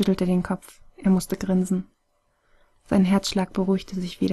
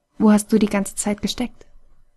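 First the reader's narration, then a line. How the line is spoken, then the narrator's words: Plain. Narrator (German): fragte er Ray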